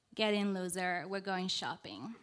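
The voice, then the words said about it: Exaggerated white girl voice. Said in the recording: “puts on her best white girl voice”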